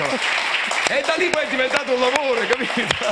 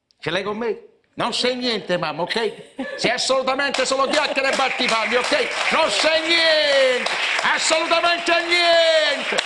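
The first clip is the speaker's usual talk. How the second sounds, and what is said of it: Imitates an Italian film dubbing voice. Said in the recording (Italian): “io imparai a fare l'imitazione del doppiatore di questi americani ... Rambo, De Niro ... Era Ferruccio Amendola”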